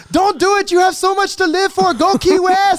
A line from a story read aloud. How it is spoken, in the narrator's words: he's screaming at me to swim, and he's like